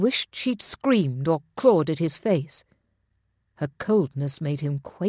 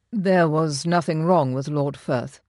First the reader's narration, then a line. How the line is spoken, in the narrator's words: he said, keeping his voice free of inflection